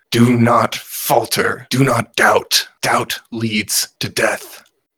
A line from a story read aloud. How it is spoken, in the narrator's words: the bear, the Moody Doo, roars to them